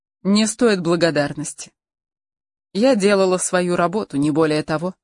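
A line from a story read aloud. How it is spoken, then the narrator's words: Cold. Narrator (Russian): холодно произнесла она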